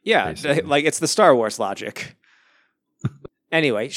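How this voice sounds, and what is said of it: Usual voice. Nothing is said of it.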